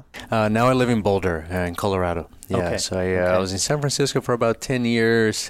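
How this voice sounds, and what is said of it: Brazilian accent. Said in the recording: “I'm from Brazil... sometimes people think, like, is this guy drunk? Why is he slurring his speech? And so forth. It's my accent.”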